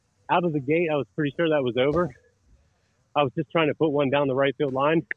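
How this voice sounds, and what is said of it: Out of breath, panting speech. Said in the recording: “I wish I wasn't so out of breath to talk about this ... why are you out of breath”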